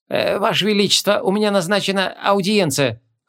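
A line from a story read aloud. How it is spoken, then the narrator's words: Scholar's timid reminder. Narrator (Russian): робко напомнил ученый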